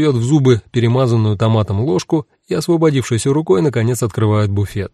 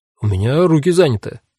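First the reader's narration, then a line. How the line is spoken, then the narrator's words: Confused reply. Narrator (Russian): растерянно отвечает Нёхиси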